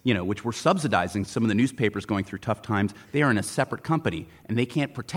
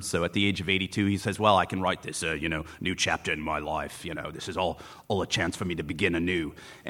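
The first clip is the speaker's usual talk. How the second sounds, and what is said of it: Mumbled, vaguely Australian impression. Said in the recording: “That is a really good Rupert Murdoch impression ... the ability to mumble with something that might seem Australian”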